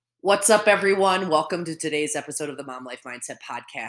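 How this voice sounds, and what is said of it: Slightly congested voice. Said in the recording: “I have a little bit of a cold, so you're probably going to hear that a little bit in my recording.”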